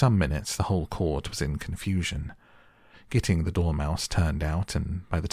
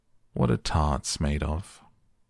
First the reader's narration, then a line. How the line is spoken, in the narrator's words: he said in a deep voice